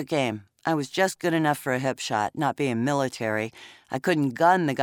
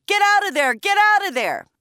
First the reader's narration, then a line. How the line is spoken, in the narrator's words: He was yelling